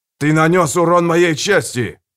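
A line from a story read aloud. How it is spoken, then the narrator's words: Shout. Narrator (Russian): крикнул Стилгар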